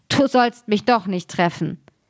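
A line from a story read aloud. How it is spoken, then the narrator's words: Witch calling, laughing heartily. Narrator (German): die Hexe lachte, dass es gelte, und rief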